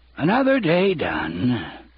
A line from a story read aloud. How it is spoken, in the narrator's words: he would sigh